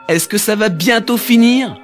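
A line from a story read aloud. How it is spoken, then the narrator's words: Nauseous soldier shouting, fed up. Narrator (French): cria le soldat qui en avait assez d'être constamment secoué alors qu'il avait déjà si mal au cœur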